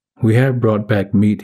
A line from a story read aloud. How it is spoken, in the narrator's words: he said